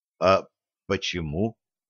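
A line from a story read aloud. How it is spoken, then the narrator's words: Whispered. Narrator (Russian): Тем же шепотом произнес Савельев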